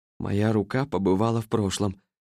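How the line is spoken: Bewildered mutter. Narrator (Russian): растерянно пробормотал профессор

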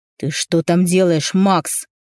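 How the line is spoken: Roaring. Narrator (Russian): взревел

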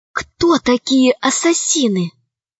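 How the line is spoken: Whispered question. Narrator (Russian): спросила Алиса шепотом

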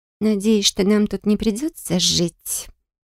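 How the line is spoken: Quiet. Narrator (Russian): тихо проговорила Бристия

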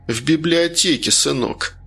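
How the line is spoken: Sad. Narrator (Russian): он грустно сказал

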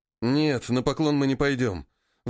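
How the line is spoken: Miner's sigh. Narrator (Russian): вздохнул проходчик

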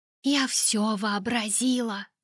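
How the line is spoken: Whisper into darkness. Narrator (Russian): шептала я в темноту

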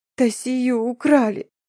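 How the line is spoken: Sobbing, wailing. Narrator (Russian): всхлипнула женщина и, заламывая руки, заревела с новой силой

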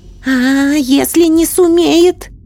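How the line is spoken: Hoarse agitated babble. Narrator (Russian): охрипшим от волнения голосом пролепетала ведунья

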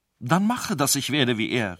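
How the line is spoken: Calling out. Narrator (German): rief Ferenc

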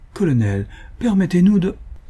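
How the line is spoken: Pleading, almost coaxing. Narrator (French): ajoutait, suppliante et presque câline

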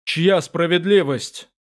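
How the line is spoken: Strained pained growl. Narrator (Russian): прорычал, стараясь совладать разум и с болью, и сосковавшими его незримыми узами

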